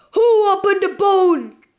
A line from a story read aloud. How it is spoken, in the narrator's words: he bellowed